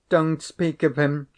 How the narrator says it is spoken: she cried

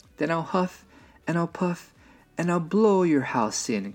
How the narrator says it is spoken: cried the angry old wolf

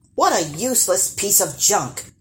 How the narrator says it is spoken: scoffed Peter and Paul, the 2 eldest brothers

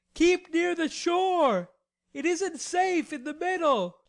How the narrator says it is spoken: he shouted back

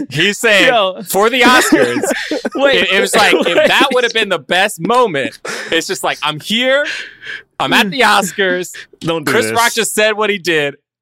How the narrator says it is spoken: I scream

